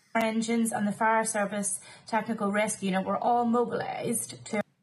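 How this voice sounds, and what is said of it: Irish accent with vocal fry. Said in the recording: “She's got a beautiful accent. I do enjoy her Irish accent. ... there's a bit of... that's called vocal fry.”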